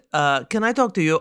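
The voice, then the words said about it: Fake foreign accent. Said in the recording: “I'm doing a fake accent.”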